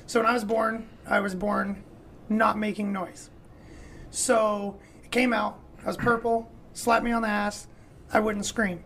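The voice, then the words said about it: Damaged, strained-sounding voice. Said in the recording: “what happened to your voice ... my voice is a little messed up ... my vocal cords ended up being collapsed”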